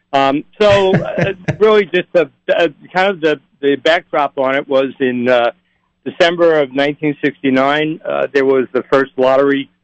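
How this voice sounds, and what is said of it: Brooklyn accent. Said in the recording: “Probably pick up from my dialect. ... my roots are in Brooklyn, and that's, I can speak Brooklynese. I'm still fluent.”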